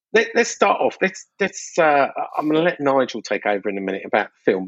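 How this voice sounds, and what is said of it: Mockney London accent. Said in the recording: “That's that Mockney accent of yours.”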